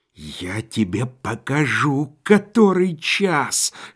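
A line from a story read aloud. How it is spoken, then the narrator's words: Hissing with hatred. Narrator (Russian): шипел Корейко, вкладывавший в свои удары вековую ненависть богача к грабителю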